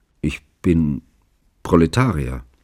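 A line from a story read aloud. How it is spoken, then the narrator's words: Hesitant. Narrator (German): antwortete Chiklin zögernd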